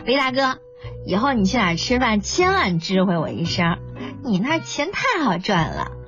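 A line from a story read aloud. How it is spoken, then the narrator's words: Cheerful. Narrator (Chinese): 曲筱绡拿了钱乐了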